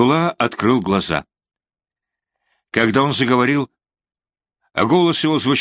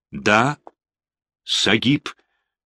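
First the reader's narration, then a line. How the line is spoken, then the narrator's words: Plain question. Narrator (Russian): спросил он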